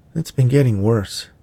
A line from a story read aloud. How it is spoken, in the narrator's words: Delilah sighed